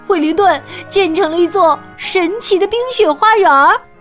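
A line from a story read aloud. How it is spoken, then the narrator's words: Shouting in unison. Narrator (Chinese): 他们异口同声的喊道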